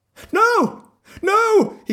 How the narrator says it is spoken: cried

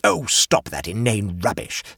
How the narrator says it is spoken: said Bell Turbot angrily

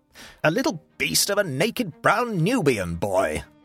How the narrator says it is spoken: spluttered Egbert

